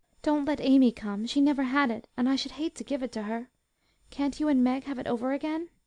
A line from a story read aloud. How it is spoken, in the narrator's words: asked Beth, anxiously